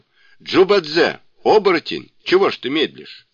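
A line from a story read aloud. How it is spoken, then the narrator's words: Shouting. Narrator (Russian): Сунь-Укун сразу же закричал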